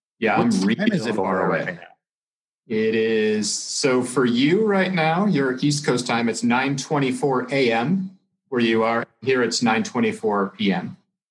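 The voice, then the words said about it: American accent. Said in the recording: “I'm an American. You can tell by the way I speak and my accent”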